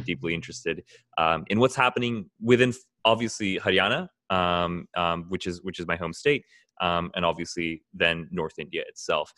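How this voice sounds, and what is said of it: American accent. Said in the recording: “I might have this American accent”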